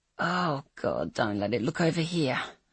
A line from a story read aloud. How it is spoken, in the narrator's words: I breathed